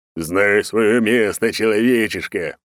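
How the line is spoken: Roaring. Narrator (Russian): проревел он

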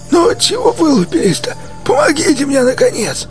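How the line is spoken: Hoarse rasp. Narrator (Russian): прохрипел он

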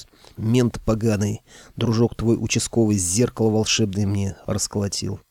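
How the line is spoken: Deflated quiet exhale. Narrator (Russian): Кощей вдруг выдохнул, обмяк и тихо произнес

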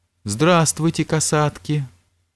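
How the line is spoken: Warm affectionate greeting. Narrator (Russian): ласково приветствовала их Елизавета Петровна

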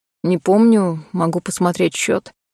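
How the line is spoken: Bartender's sigh. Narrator (Russian): вздохнул бармен

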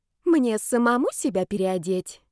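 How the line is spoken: Unctuous question. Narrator (Russian): елейным голосом спросил Зарецкий

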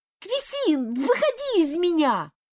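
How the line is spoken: High childlike exclamation. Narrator (Russian): воскликнул он высоким детским голосом

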